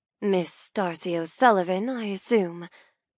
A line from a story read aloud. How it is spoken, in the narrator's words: murmurs, her voice dropping an octave